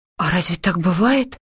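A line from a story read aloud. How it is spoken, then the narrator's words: Confused question. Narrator (Russian): спросила растерянно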